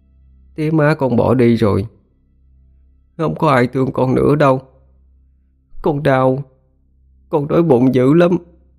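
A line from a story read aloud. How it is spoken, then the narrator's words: Child's trembling voice. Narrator (Vietnamese): Thằng nhỏ đáp lại lời bà bằng cái giọng run run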